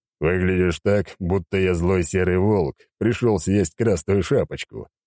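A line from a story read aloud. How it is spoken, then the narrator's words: Chuckling. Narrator (Russian): хохотнул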